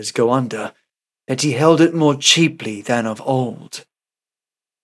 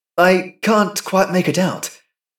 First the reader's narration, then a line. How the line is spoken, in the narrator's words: he said